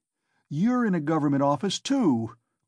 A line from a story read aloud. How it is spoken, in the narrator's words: cried Raskolnikov